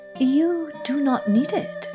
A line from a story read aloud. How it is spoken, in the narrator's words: said the hermit quietly